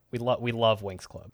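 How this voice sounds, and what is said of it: Cult leader voice. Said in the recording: “in my cult leader voice,”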